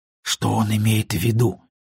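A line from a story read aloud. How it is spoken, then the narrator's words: Whisper. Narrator (Russian): прошептал я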